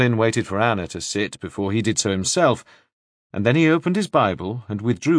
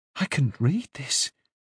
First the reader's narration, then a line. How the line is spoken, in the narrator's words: she said, speaking almost in a whisper